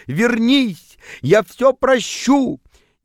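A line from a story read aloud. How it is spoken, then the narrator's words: Shouting. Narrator (Russian): кричал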